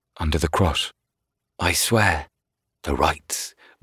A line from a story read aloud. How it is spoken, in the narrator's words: muttered all the men around Keneal